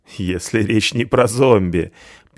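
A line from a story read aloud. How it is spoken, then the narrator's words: Drunken laughter. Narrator (Russian): пьяно засмеялся я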